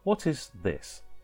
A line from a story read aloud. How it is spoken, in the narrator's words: he said